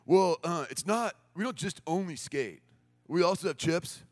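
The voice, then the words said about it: Impression of stereotypical skateboard camp guys. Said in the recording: “it's like every stereotype you have about people who would be running a skateboard camp is true ... this is her impression of these guys”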